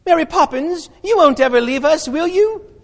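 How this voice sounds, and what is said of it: Put-on British schoolchild accent. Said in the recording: “That's my British accent. That's British school kids talk like that.”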